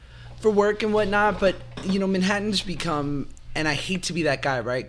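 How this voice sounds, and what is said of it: New York accent. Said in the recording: “my mom is so hard body karate New York that, like, I still have my accent.”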